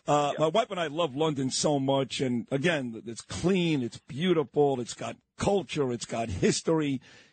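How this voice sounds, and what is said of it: New York Brooklyn accent. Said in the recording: “You got that New York, Brooklyn accent.”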